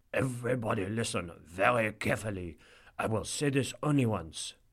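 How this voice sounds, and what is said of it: Mock French accent. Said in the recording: “in a mock French accent”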